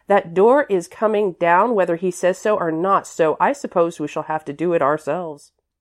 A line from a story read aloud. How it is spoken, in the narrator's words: she added firmly